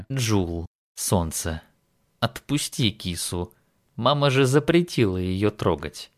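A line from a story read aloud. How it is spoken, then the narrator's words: Soft but insistent. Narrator (Russian): мягко, но настойчиво произнес он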